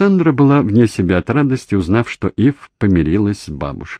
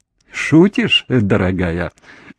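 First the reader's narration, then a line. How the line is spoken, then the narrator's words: Laughing. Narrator (Russian): засмеялся Джордж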